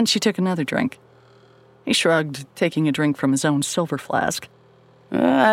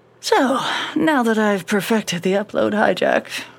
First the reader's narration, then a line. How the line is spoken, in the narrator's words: Marion said, sighing